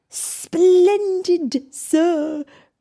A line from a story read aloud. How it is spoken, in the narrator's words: Cogsworth cried